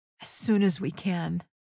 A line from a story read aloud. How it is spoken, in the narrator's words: he said, his voice breaking